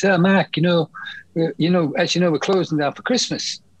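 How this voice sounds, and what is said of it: Imitates another person's voice, badly. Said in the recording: “I'm doing a very bad George Young imitation.”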